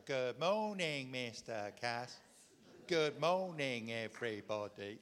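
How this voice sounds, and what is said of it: Sing-song voice. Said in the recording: “in a sing song voice”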